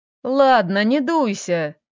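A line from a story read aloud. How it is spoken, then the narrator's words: Chuckle. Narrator (Russian): хохотнул он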